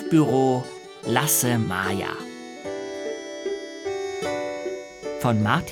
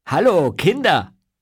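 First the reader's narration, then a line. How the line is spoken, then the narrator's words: Called out. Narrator (German): ruft jemand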